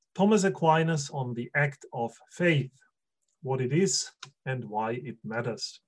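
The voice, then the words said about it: German-accented English. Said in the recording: “You have to get used to a German accent for the next 40 to 50 minutes”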